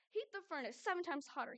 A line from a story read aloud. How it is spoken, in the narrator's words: barked out the command